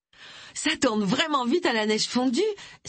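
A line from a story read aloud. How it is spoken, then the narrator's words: Joyful exclamation. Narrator (French): s'exclama-t-elle joyeusement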